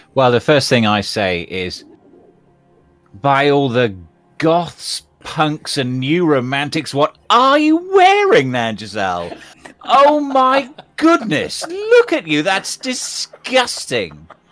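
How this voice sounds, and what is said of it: Loud shouting voice. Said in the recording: “stop shouting. Everyone will hear you.”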